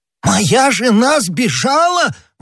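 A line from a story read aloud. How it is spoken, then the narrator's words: Exclamation. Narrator (Russian): воскликнул Бонасье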